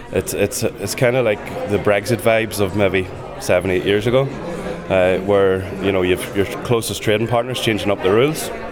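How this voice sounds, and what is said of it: Northern Irish accent. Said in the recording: “given my accent, obviously, from Armagh”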